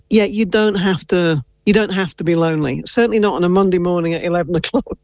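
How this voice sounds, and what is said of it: English accent. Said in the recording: “Based off your accent, I wonder, were you maybe born in England?”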